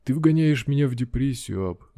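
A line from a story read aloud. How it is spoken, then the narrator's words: Sighing. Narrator (Russian): вздохнул проф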